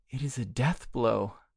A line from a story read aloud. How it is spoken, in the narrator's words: murmured Durand, sobbing